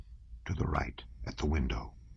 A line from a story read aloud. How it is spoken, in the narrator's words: the officer on duty said in a whisper